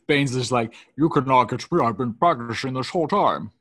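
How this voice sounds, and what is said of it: Imitated movie villain voice. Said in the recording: “My Bane impression and my Sean Connery are exactly the same.”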